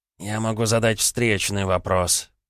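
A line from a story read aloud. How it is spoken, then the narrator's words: Through gritted teeth. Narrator (Russian): процедил Полянский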